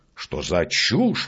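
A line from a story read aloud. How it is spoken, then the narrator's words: Exclaiming. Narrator (Russian): воскликнул он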